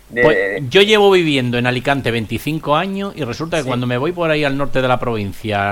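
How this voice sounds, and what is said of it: Murcian Spanish accent. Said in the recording (Spanish): “¿usted es murcián por el acento? Digo, claro.”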